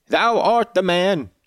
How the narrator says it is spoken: cried Jabes after a solemn pause

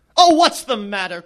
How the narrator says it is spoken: cried David

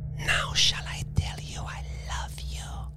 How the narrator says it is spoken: She whispered

